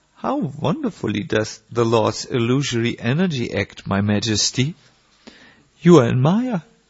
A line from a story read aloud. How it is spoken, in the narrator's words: Haridas simply smiled and loudly said